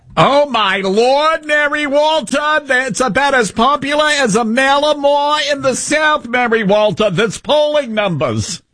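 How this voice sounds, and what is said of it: Staten Island yenta-like impression voice. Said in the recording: “Why do you sound like a Yenta from Staten Island? ... That's my Harry Inton impression.”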